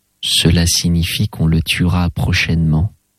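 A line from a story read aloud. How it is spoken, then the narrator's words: Plain. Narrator (French): dit l'oblat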